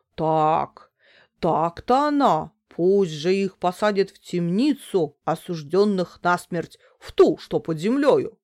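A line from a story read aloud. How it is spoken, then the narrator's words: Menacing exclamation. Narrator (Russian): грозно воскликнул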